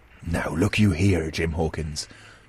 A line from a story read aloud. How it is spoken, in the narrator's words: said with a steady whisper that was no more than audible